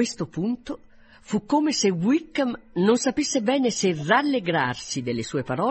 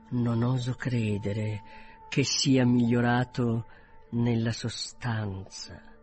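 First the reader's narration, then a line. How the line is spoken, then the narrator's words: Quieter, more serious. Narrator (Italian): soggiunse più piano e in tono più serio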